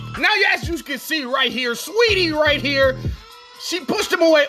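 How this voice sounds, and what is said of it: Fight breakdown commentator voice. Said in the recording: “in my fight breakdown voice.”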